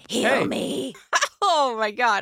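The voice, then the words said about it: Growly demon character voice. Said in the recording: “That was my demon voice.”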